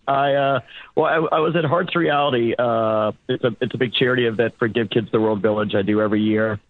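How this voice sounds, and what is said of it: Hoarse, strained voice. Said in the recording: “My voice is a little shot.”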